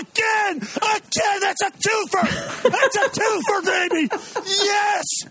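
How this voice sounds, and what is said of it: Breathless excited shouting. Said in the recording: “He's out of breath.”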